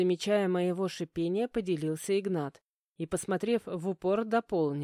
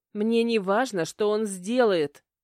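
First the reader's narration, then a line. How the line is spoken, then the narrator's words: Indignant blurt. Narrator (Russian): выпалила возмущенно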